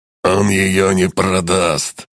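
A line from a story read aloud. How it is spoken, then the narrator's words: Snorting. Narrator (Russian): хмыкнул обладатель доспеха с шипами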